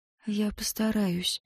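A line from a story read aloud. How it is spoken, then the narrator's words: Quiet reply. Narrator (Russian): ответила она так же тихо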